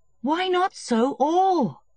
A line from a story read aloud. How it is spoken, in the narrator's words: cried Levin